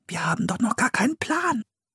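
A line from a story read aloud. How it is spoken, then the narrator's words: Whispered. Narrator (German): flüsterte Philipp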